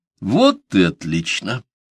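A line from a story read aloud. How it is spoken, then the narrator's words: Solemn pronouncement. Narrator (Russian): торжественно изрек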